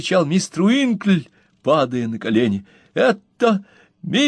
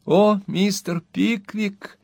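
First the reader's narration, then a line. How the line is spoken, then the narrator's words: Quiet, anxious. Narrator (Russian): тихим голосом сказала Арабелла, как будто встревоженная его молчанием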